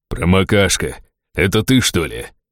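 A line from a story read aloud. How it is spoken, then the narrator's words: Deep bass laugh, orc. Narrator (Russian): густым басом, посмеялся орк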